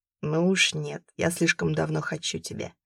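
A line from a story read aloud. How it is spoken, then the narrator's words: Growled. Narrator (Russian): прорычал он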